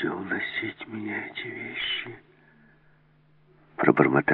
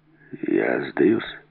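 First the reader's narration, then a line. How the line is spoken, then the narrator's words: Hoarse. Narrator (Russian): хрипло сказал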